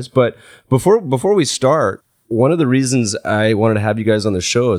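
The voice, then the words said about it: Sniffly, congested voice from cold. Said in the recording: “I'm a little sniffly. ... I have a little cold.”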